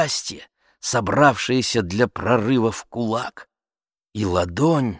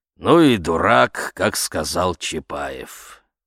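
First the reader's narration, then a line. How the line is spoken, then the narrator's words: Grim old man summing up. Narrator (Russian): мрачно сплюнул в волну старик и резюмировал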